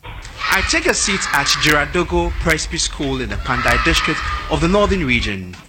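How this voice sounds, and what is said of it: Ghanaian English accent. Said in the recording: “Is anyone from Ghana in the room? ... The accent is a bit difficult to follow”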